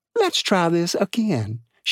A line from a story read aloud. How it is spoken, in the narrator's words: she said sweetly